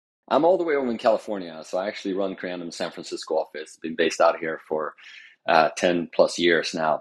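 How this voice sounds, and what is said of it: Scandinavian accent with slight American twang. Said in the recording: “I can slightly hear now the American twang with a little bit of the Scandinavian, obviously still very much there.”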